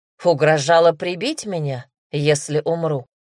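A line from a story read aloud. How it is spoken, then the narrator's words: Wry snort. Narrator (Russian): хмыкнул Дамир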